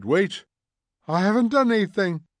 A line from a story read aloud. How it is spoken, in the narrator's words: cried the old man, trembling